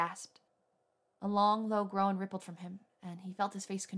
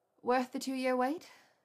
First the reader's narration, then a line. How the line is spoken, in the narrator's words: she asked in a blurry voice